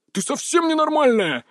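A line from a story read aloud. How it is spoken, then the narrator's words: Howled, male. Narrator (Russian): взвыл он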